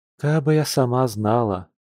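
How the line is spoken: Sighing woman. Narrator (Russian): вздохнула почтальонша

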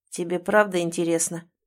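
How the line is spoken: Hoarse question. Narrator (Russian): хрипло интересуется Эмиль

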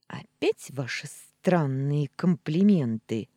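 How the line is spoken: Through gritted teeth. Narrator (Russian): процедила

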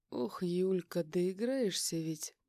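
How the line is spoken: Smirking drawl. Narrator (Russian): С ухмылкой протянул я

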